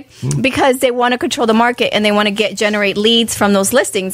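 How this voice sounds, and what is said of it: Congested voice from a cold. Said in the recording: “See, I have a cold”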